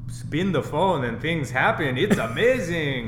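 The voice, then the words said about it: Put-on Russian accent. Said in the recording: “I'm not doing a terrible Russian accent”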